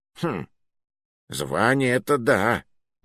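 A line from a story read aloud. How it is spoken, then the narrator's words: Thoughtful drawl. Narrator (Russian): задумчиво протянул Муруа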